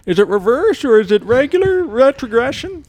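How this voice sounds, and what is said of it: Put-on old man voice. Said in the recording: “Are you using an accent when you do that? ... I don't know what accent I'm trying to do there ... kind of like an old man.”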